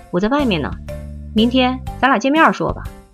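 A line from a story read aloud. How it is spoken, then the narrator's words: Throat cleared, hushed voice. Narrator (Chinese): 桃香清清嗓子，压低声音说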